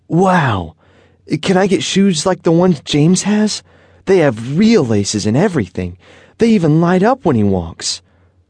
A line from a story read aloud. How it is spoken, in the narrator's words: Dominic said excitedly